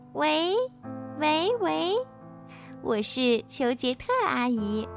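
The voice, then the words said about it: Pinched-nose fake girl's voice. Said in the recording (Chinese): “捏着鼻子，假装女生的声音”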